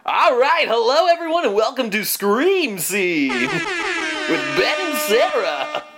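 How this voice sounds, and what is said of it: Exaggerated radio DJ voice. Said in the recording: “radio DJ voice ... I could push it more radio DJ”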